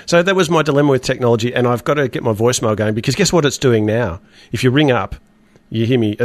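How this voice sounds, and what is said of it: Congested voice from a cold. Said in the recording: “I've got a cold tonight, you might be able to tell”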